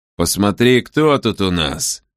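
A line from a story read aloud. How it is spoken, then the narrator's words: Menacingly quiet. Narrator (Russian): сказал он угрожающе тихим голосом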